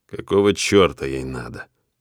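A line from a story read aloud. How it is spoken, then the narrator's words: Gloomy. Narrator (Russian): мрачно хмурюсь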